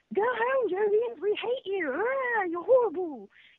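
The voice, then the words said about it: Put-on English accent, angry shouting. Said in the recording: “can you do that with an English accent?”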